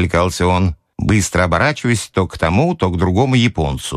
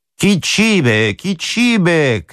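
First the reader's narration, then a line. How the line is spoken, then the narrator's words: Joking shout. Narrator (Russian): крикнул я однажды в шутку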